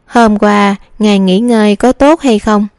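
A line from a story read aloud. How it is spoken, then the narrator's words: Smiling question. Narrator (Vietnamese): nàng mỉm cười hỏi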